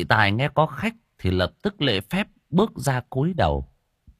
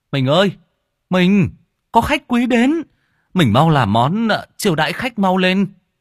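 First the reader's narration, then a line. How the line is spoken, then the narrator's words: Cheerful loud shout. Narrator (Vietnamese): anh Tài đã vui vẻ hét to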